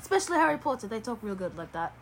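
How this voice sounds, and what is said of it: Put-on British accent. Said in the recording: “she has a dialect crisis because she doesn't know what accent she wants to have ... This is my British accent I'm using for the day”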